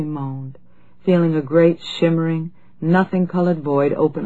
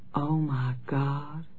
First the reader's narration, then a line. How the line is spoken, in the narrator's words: she said softly